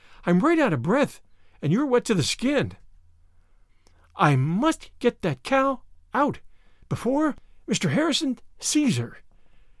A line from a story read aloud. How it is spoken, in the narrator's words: gasped Anne